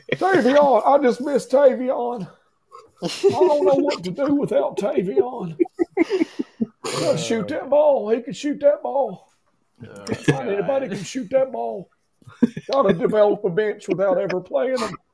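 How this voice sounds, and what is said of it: Impression of coach Stansbury. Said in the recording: “I always love his impression.”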